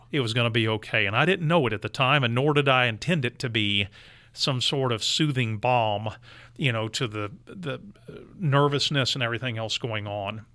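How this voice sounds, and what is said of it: Texan accent. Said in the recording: “my Texan accent and all that, had an incredibly calming effect ... Giuliani's aide not being able to understand my Texan accent”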